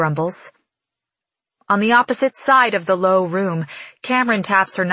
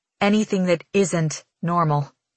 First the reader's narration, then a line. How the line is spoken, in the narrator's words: I reply through gritted teeth